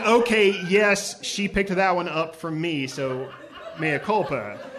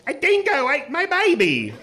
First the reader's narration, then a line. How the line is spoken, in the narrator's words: She also will screech out, sometimes at inopportune moments